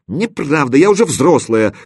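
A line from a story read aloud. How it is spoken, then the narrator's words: Heated exclamation. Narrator (Russian): горячо воскликнула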